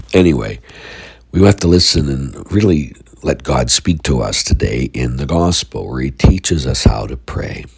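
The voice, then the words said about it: Stuffy, congested voice. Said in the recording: “I've had a sinus infection ... I'm a little stuffy and everything else right now, so that's why my voice sounds different.”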